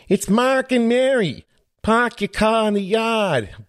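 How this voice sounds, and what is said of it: Poor attempt at Boston accent. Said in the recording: “some awesome podcast listeners from Boston ... Boy, my accent sucks.”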